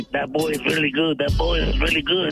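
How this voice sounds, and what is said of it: Imitates a film character's voice. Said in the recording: “your impression of Billy Bob as in Sling Blade”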